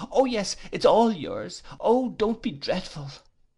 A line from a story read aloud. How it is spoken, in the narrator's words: cried Dora